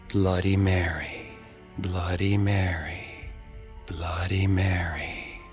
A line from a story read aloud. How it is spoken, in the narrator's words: Ashley whispered